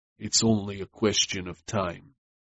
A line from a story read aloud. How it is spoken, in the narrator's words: he said coldly